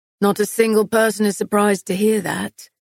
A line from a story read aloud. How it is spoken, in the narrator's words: Kieran remarked